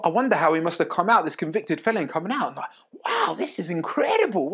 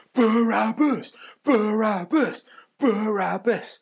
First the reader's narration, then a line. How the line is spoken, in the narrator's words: shouting in the crowd